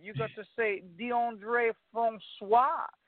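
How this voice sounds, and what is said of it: Mock French accent on a name. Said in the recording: “you got to say with that little French accent”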